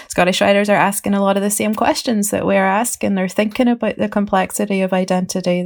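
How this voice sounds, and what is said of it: Northern Irish accent with Scottish twang. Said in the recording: “there's a Scottish twang in my voice. That's what I normally get mistaken for”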